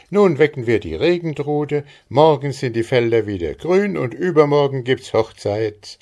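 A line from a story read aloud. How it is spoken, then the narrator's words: Calling out. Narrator (German): rief Maren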